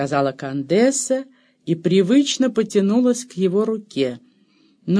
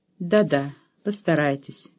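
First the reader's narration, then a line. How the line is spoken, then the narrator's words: Soft, gentle. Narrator (Russian): мягко сказала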